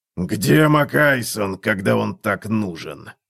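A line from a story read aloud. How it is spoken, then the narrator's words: Growled. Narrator (Russian): прорычал он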